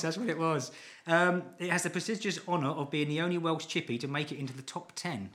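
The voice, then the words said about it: Welsh accent. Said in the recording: “It's my Welsh accent.”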